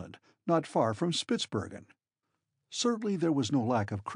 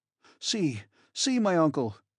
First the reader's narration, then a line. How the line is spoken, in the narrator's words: I cried